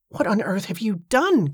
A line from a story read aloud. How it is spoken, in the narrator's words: Cornelia gasped